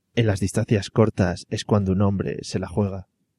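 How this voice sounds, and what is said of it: Puts on an advert announcer voice. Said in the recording (Spanish): “Este voy a poner voz”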